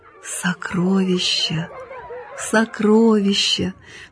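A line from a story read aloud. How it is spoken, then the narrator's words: Barely audible repeated whisper. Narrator (Russian): приговаривал он едва слышным шепотом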